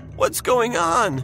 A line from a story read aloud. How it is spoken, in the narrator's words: Justin said in a tearful voice